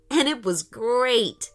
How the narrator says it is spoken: laughed Aiden

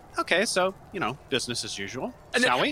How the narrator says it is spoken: calmly towards turn towards Rena and say

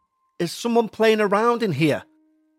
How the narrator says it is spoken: He said angrily

